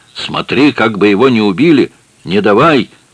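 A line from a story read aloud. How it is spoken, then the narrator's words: Frightened shout. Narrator (Russian): Мэ в испуге крикнув Этьену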